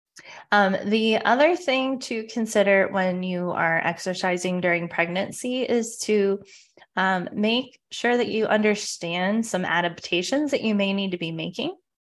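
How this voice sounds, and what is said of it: Slightly congested, sick-sounding voice. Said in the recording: “I have a little bit of a cold, so I may have to pause here and there during this episode so I don't cough in your ear.”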